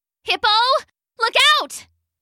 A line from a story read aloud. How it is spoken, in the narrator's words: Leah shouted